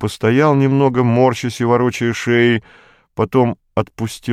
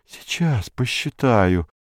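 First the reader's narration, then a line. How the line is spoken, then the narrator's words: Muttering. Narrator (Russian): бормотал он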